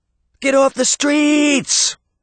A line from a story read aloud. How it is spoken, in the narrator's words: Sabrina cried